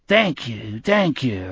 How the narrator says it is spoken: the blind man croaked monotonously

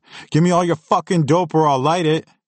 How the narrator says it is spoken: screamed

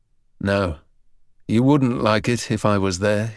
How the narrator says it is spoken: he said

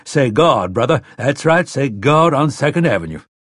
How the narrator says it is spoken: bellowing

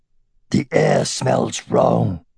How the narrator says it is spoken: said Saphira, and she growled ever so slightly

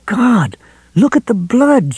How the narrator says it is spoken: she cried in a choked voice

